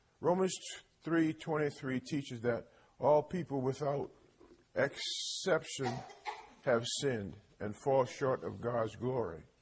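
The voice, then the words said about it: Slightly hoarse voice. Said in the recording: “I'm a little hoarse this morning, just a little bit. I think you can hear me.”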